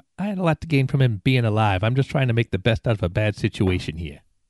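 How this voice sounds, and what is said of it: Put-on New Jersey accent. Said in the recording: “You like my latest accent? ... wasn't going to say anything to New Jersey ... Roll an accent check.”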